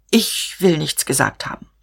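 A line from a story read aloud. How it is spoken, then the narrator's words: Stammering. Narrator (German): stammelte er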